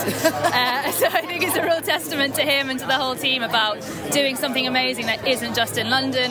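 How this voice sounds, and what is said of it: Southern English accent. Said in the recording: “Excuse my southern accent”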